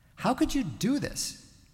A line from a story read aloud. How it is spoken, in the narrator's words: pleaded